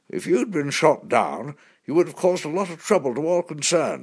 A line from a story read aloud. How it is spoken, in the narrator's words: grumbled